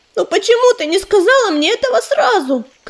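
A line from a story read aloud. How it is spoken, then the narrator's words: Shouting. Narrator (Russian): крикнула она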